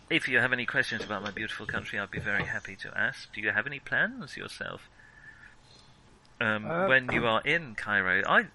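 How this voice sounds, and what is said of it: Strange put-on foreign accent. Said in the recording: “This is a very strange accent of mine, you may notice.”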